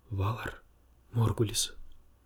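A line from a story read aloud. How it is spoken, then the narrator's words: Whispered, woman. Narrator (Russian): под конец шепнула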